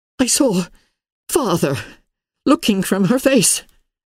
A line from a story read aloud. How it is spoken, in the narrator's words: gasped Elizabeth, trembling